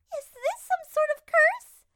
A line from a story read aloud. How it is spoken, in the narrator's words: Peach cried out